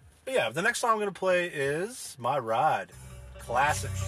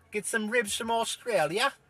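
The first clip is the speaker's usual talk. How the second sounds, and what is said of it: Put-on accent, attempted Australian. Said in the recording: “It's not even an Australian accent. I don't know why I did that.”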